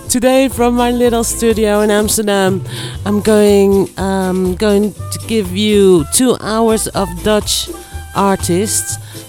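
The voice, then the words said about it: Weak, fading sick voice. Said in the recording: “I'm having the flu, yeah, and my voice is disappearing, so I hope you can understand.”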